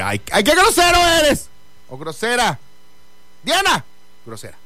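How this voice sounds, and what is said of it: Loud shouting voice. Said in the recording (Spanish): “Bien temprano para que estés con tus gritos. ... Escándalo, hombre. ... 6:10 de la mañana y estás gritando. Sí. Con tu grito. ... ¡Sí! Voy a seguir gritando.”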